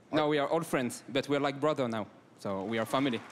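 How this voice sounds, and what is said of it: French accent in English. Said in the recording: “I noticed an accent. ... From France.”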